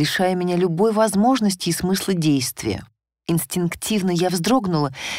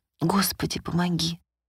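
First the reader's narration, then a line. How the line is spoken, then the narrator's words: Repeated inner whisper. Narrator (Russian): шептал мой внутренний голос снова и снова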